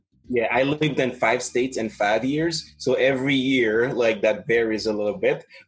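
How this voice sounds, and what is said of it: Non-native English accent. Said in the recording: “I knew it was not my native tongue ... my accent is a little bit shaped by the regions where I live in. ... Yes, I can hear it.”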